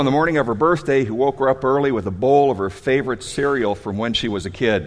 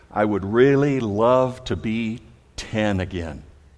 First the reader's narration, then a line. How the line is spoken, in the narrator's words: she replied wistfully